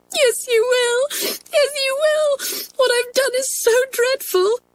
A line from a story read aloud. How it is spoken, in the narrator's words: sobbed